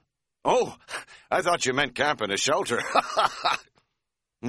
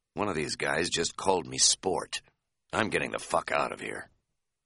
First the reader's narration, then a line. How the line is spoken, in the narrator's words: said in a whisper